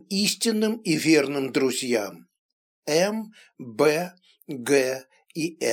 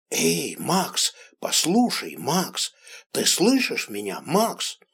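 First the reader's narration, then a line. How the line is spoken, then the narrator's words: Pleading whisper. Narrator (Russian): шептал он просящим тоном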